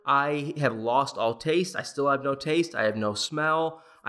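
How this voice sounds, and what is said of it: Congested voice from a cold. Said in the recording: “I have a little cold. I don't know if you guys can hear that in my voice, but I definitely do have a little cold”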